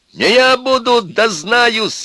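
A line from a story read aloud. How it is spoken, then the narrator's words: Cracking shout. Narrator (Russian): еще раз крикнул Костя срывающимся голосом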